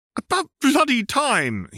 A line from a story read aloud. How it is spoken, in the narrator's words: he shrieked